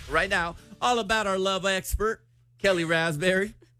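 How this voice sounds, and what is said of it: Unintended country accent. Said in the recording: “I didn't mean to do an accent ... It in a country accent.”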